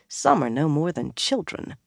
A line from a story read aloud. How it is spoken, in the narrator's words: Lyanna muttered